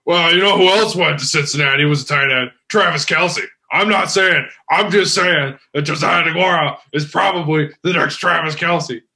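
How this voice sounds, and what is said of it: Imitates another person's voice. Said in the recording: “my Dustin impersonation ... that sounds just like it ... This sounded more like Batman than”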